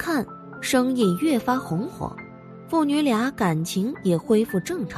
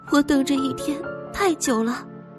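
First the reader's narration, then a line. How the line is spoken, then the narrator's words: Sobbing, trembling voice. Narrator (Chinese): 黄之化也再也忍受不住，放声痛哭，颤声道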